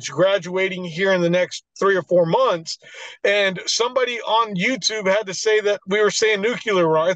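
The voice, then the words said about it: Texas accent. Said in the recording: “Maybe it was my Texas accent.”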